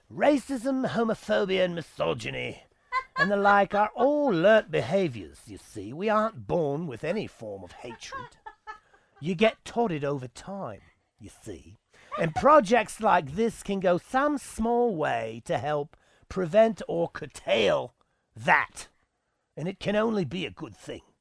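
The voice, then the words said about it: Put-on English accent. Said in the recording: “They have the accent in England.”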